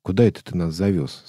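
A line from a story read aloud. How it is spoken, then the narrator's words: Plain question. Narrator (Russian): спросил он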